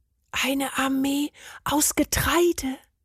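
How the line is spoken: Whisper. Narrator (German): flüsterte Bernd

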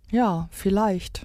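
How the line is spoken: Squirrel sighing. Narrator (German): seufzte das Eichhörnchen

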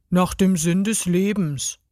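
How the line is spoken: Exhausted, almost toneless answer. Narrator (German): antwortete er fast tonlos erschöpft

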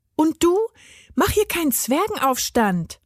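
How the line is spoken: Woman calling out. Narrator (German): rief sie ihm zu

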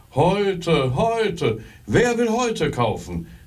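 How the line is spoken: Calling out. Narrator (German): rief er wieder

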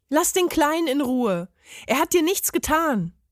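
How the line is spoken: Calling out. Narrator (German): rief er dem Parmesan zu

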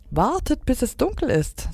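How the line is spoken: Excited. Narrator (German): sagte Stella Luna aufgeregt

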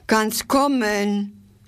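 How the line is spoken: Called out. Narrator (German): rief sie

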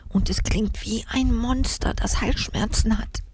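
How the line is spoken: Whispered. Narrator (German): flüsterte sie

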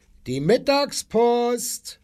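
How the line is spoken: Calling out. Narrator (German): rief er

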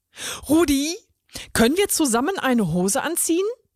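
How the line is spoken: Excited question. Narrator (German): fragte die karierte Schlange aufgeregt

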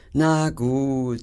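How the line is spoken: Sighed. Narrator (German): seufzte Schnotz

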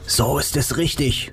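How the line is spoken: Whisper. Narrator (German): flüsterte Nick

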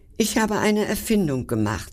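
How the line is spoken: Very excited. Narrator (German): sagte ganz aufgeregt

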